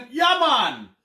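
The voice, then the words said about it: Put-on Jamaican accent. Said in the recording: “can you do a Jamaican accent?”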